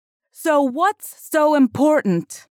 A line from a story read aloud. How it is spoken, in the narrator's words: shouted Lauren